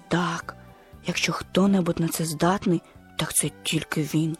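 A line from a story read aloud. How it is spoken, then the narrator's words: Whispered. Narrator (Ukrainian): шепнув Твіга слону Нембо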